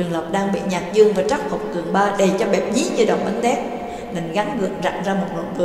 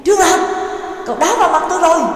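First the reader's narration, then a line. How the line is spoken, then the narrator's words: Loud shout. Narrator (Vietnamese): lớn tiếng hét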